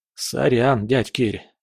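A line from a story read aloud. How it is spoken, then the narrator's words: Hoarse croak through stiff lips. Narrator (Russian): прохрипел я, с трудом разлепляя губы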